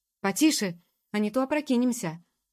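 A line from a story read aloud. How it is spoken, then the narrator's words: Displeased shout. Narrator (Russian): фар еще более недовольно прикрикнул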